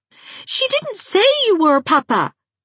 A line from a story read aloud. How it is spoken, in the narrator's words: cried Trix, who was never afraid of her father when his temper was vocal